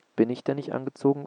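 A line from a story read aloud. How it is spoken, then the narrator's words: Plain question. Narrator (German): fragte Shevek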